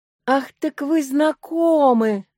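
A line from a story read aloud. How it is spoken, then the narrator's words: Joyful. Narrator (Russian): говорит Николай Данилович, глядя на меня радостно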